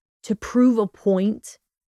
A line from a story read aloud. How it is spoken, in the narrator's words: He growled, the jealousy rich in his voice, much to his disdain